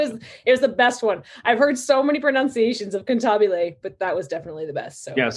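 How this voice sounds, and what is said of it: Usual voice. Nothing is said of it.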